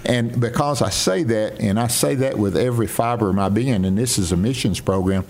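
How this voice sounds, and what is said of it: Southern US accent, northeast Mississippi. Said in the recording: “he can't do much about my sound and my accent ... I'm still from northeast Mississippi, and everyone knows it ... you're from the south ... South Carolina or Mississippi ... the draw”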